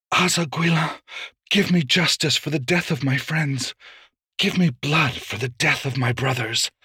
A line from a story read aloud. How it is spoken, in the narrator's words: Locke whispered